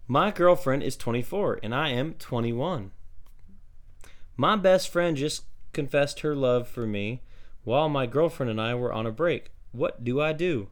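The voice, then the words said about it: Reads in a put-on accent. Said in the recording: “I don't know why I gave you that accent. I'm sorry. That's just the way I pictured it while reading it.”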